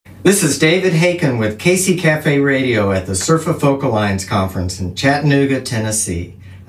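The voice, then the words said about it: Polished radio announcer voice. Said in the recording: “We have this great radio voice, dude. It's awesome.”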